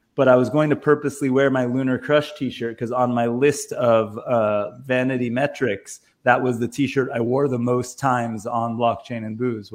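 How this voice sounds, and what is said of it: Hoarse, fading voice. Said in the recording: “I'm like losing my voice and felt a little sick”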